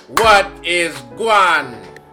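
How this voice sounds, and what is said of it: Poor imitation Jamaican accent. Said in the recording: “That was a terrible Jamaican accent.”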